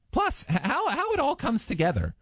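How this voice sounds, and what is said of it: Voice suddenly goes high-pitched. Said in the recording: “I don't know why my voice went really high there. It was weird”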